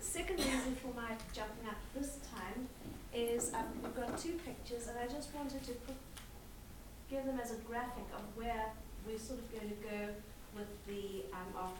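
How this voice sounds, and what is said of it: Noticeable accent, fast speech. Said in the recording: “my accent. And I talk fast and I talk funny. I heard a similar accent back there.”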